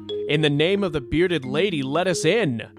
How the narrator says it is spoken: he yelled

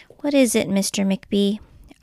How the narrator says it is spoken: asked Miss Merriweather in her new, sad, quiet voice

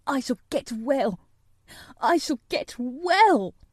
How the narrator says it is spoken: he cried out

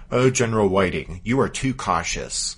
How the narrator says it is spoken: The Confederate commander replied testily

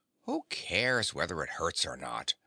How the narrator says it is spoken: growled the Tiger

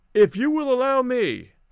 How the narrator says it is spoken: I called out

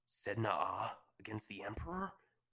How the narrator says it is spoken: Kinto asked with a gasp

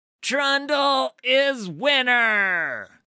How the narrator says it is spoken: shouted the clever little troll

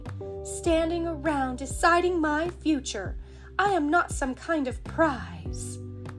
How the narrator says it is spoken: cried angrily

